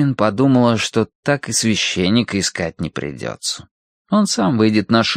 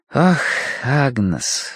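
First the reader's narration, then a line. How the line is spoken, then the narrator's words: Sighing. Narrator (Russian): вздохнула Киврин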